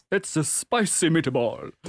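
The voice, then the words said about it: Imitates another person's voice. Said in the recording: “that's my one impression for the show.”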